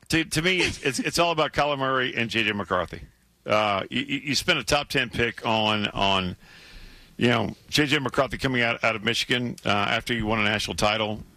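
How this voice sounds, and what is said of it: Hoarse, strained voice. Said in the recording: “I'm losing my voice ... your voice is struggling a little bit”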